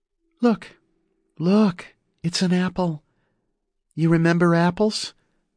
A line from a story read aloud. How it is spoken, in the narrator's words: she asked in a calming voice